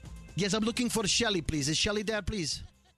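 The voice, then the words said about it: Put-on foreign accent. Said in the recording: “this guy with an accent ... So I call him up as that guy. ... With an accent? ... You're not good with accent. ... Let's listen to this accent.”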